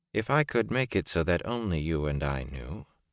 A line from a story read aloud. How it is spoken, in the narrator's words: she said coldly